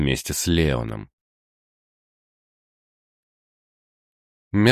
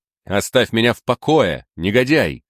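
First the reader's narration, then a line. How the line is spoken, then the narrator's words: Angry shout. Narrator (Russian): закричал англичанин, и серые глаза его загорелись гневом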